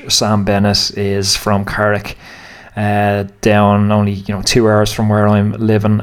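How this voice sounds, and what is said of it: Irish accent. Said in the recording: “if you can't tell from my accent, I'm Irish”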